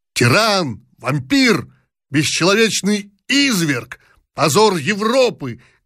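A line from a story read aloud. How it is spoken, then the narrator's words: Guard shouting. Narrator (Russian): кричал один из гвардейцев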